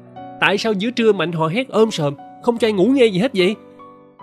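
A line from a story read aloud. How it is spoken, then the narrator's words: Shouting complaint. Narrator (Vietnamese): Tôi hét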